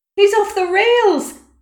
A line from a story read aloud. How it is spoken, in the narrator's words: Someone shouted